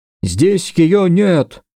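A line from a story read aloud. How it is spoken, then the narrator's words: Dog's shout. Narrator (Russian): крикнул один из псов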